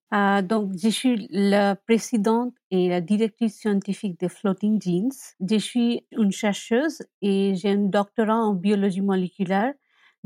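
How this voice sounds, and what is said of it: Speaks French with a foreign accent. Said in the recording (French): “on entend qu'il y a un accent, on va l'entendre”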